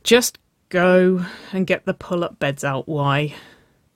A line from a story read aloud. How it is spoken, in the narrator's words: She sighed